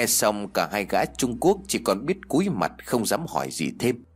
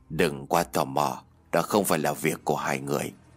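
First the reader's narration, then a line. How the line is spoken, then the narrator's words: Soft quick reply. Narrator (Vietnamese): Ông Vương liền khẽ đáp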